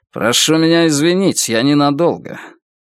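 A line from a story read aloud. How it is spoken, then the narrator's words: Through gritted teeth. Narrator (Russian): Ардан процедил сквозь стиснутые зубы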